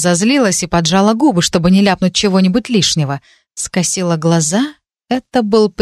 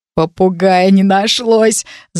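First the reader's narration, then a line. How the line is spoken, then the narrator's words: Laughing. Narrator (Russian): засмеялся кто-то рядом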